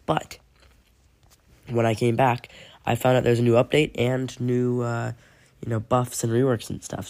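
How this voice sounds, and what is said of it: Congested voice from a cold. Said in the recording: “My voice might sound a little bit different because I do have a very bad cold”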